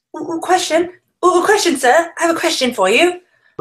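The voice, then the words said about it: Fake old-fashioned British accent. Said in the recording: “Don't use that voice again. ... You mean my fake British accent? It's the best. ... It's also from like 1850, I think, the accent.”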